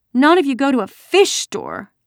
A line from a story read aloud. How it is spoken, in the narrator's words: Kirsty bellowed